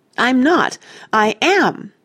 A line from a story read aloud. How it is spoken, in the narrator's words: Jane cried